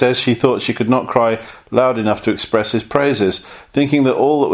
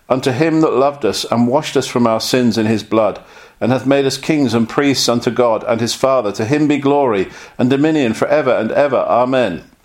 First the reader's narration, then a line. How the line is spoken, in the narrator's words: She cried out